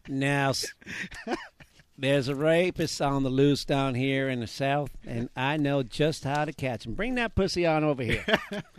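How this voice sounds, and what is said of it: Put-on Southern US accent. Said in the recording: “Do your southern accents.”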